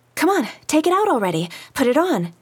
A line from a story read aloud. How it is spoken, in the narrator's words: Lina was saying impatiently